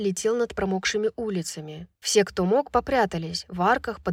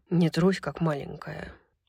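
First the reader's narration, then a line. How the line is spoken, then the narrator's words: Ingratiating whisper in ear. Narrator (Russian): вкрадчиво прошептал ей на ухо Хант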